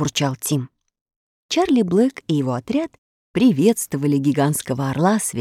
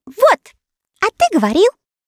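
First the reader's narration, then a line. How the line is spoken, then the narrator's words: Triumphant girl's exclamation. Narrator (Russian): девочка торжествующе воскликнула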